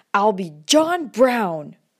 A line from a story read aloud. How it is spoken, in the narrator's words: I unwisely dared to shout